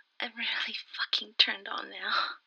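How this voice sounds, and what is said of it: Aroused, lust-choked voice. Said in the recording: “hear it in my voice ... I'm positively choked with lust.”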